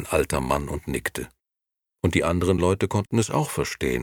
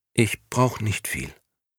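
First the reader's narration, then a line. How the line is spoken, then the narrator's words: Quiet, after a pause. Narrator (German): Momo schwieg eine Weile und sagte dann leise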